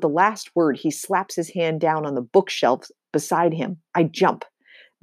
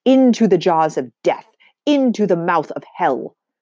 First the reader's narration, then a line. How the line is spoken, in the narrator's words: bellows